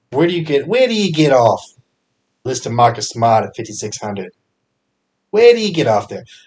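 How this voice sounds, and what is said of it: Poor put-on Boston accent. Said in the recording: “that was a terrible accent ... say your Boston accent is terrible”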